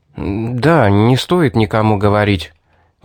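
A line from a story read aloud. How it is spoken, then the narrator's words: Uneasy mumble. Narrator (Russian): поеживаясь под ее взглядом, промямлил я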